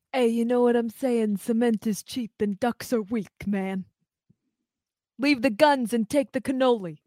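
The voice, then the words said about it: Poor Godfather-style mobster impression. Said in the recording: “That was my Godfather impression ... that's a terrible impression of your Godfather”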